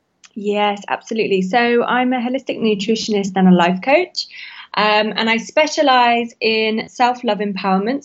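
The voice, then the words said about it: London English accent. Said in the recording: “Hello from London ... I just love hearing that accent. It's so fun.”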